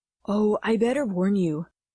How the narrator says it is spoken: she said in that guy voice of hers

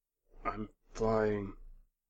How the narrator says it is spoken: muttered

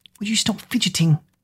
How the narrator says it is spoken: Kira whispered

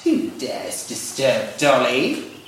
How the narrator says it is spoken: a weather-beaten creature rasped

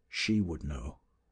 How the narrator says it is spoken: said the leader bitterly, as if speaking to himself

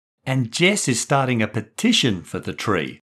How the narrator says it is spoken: Maddie chipped in excitedly

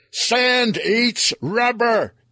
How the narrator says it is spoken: yelled

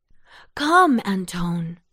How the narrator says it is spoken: she cried

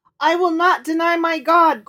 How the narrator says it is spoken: cried the boy

